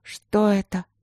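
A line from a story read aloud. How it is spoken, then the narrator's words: Nervous mutter. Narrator (Russian): пробормотала я, с отвращением услышав собственный нервный голос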